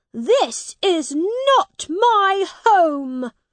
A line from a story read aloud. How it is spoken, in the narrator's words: he cried out